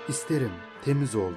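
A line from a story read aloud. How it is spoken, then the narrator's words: Plain. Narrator (Turkish): dedi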